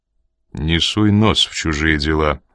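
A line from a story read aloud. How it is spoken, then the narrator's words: Dry. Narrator (Russian): сухо проговорил Коридон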